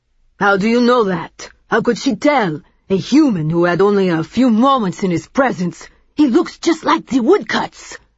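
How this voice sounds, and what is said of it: French accent, man's voice. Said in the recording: “a tall, heavy man with a French accent”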